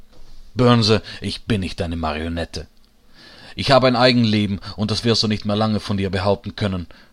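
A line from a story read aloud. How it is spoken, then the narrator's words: Shouted back. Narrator (German): schreit er zurück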